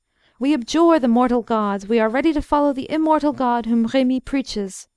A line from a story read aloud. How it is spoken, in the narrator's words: most of those present cried out